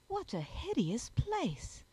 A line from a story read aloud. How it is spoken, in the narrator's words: exclaimed Juliet